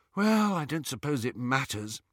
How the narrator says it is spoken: sighed Hermione

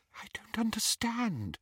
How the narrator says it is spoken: she whispered

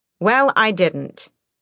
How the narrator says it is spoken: Aelin snapped

